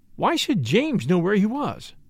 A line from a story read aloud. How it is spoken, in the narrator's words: demanded Caroline sharply